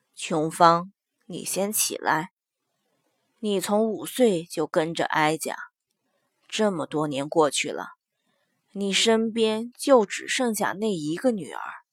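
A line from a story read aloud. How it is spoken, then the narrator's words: Sighing. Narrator (Chinese): 莫太后叹了一口气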